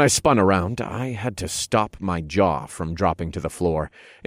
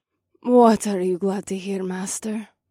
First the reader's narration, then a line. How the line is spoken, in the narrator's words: voice purred from the top of the stairwell